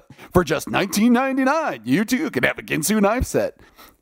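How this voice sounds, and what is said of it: Radio announcer voice. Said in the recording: “my radio announcer voice”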